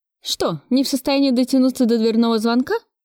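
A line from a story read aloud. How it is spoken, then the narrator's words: Sarcastic question. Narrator (Russian): спросила я язвительно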